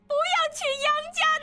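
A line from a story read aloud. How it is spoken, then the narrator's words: Still shouting. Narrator (Chinese): 杨氏仍在大叫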